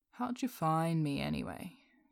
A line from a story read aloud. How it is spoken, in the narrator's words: Deadpool says, lazily